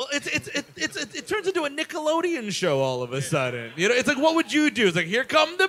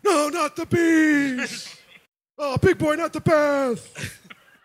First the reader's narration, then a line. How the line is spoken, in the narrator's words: he's screaming